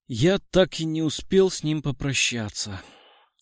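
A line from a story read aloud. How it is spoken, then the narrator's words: Sighing. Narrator (Russian): Второй собеседник вздохнул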